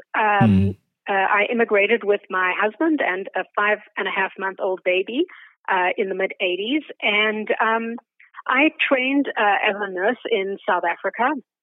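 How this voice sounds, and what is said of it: South African accent, slight Canadian tinge. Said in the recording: “I'm originally from South Africa, which you may be able to tell from my accent. It has a Canadian veneer on it”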